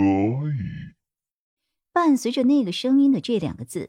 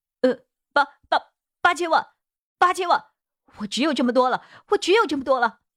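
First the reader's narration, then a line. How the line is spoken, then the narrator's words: Hurried, stammering. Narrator (Chinese): 急忙他又加码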